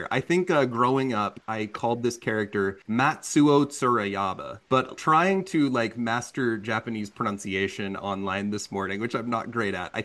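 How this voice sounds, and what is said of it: Southern American accent. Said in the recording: “I'm going to really emphasize my southern accent here”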